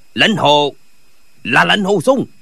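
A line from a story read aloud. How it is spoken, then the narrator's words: Terrified shout. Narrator (Vietnamese): Gã vừa trông thấy Lệnh Hồi Xung thì vô cùng kinh hãi quát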